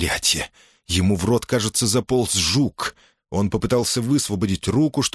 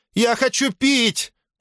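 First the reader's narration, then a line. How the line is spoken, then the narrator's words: Shout. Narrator (Russian): крикнул он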